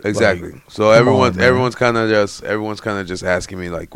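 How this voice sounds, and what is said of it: Hoarse, mostly gone voice. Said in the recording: “what happened to your voice? ... my voice to be gone is I've been yelling at anime as my voice is trying to heal”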